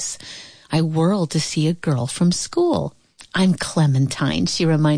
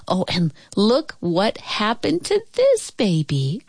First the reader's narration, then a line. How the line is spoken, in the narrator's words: cried Clementine